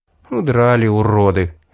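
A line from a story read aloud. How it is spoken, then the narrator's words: Sighed. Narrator (Russian): вздохнул я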